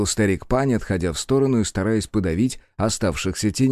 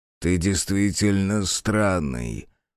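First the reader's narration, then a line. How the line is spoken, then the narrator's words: Demon snorting. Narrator (Russian): хмыкнул первый демон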